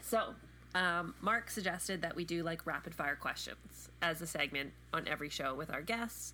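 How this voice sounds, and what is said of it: Congested, stuffy voice. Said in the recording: “I sound terrible? I have a cold,”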